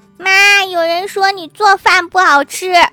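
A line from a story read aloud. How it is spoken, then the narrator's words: Shouting child. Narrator (Chinese): 小男孩大喊对服务员说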